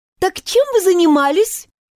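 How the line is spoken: Overly cheerful question. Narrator (Russian): Преувеличенно бодро уточнила

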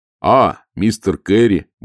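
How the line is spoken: Cheerful. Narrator (Russian): бодро произнес Моркоу

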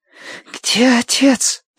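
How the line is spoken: Girl's demanding rasp. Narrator (Russian): прохрипела девочка требовательно

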